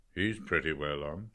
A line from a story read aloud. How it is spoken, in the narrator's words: Professor McHugh said in a low voice